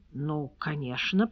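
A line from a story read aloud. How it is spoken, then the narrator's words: Muttering. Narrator (Russian): пробормотал Мортон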